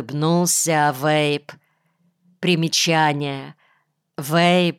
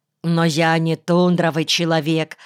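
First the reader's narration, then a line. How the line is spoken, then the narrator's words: Plain. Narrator (Russian): сказал Млеткин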